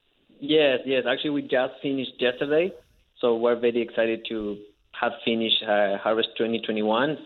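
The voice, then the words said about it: Argentinian accent in English. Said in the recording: “I'm sure our listeners detect an accent from you... I'm from Mendoza, Argentina”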